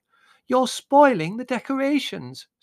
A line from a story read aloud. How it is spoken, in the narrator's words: screamed Margot